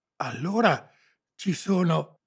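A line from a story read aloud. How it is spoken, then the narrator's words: Panting boy. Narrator (Italian): ansimò il ragazzo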